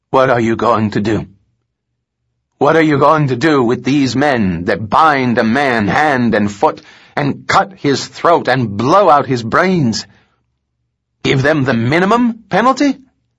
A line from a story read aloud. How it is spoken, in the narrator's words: Turning again to the jury, he hoarsely asked